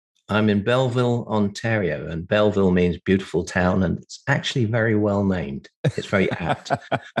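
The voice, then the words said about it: English accent. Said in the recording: “has got a beautiful English accent”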